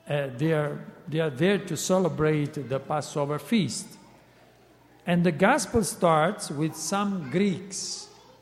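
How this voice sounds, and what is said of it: Italian accent speaking English. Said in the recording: “I am Italian myself, so I try to speak English. So sorry for my accent”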